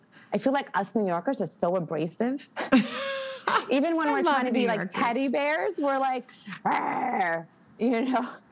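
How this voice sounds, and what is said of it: Heavy New York accent. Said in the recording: “the New York accent. And I know mine is really heavy”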